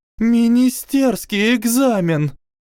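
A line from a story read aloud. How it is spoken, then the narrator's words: Shouted. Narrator (Russian): крикнула Мелисента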